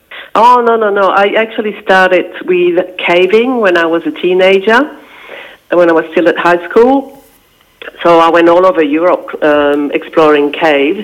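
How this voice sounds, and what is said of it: French-speaking Belgian accent. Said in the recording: “Belgium, yes... my first language is French, which is why I've got a funny accent.”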